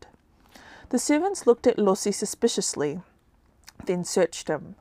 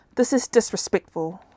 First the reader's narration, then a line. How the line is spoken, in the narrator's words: Lossi said in a hurt voice